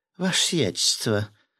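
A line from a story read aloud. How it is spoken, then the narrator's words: Cooing in woman's voice. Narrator (Russian): проворковал женским голосом рыбак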